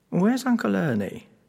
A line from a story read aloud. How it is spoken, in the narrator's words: he asked us quite anxiously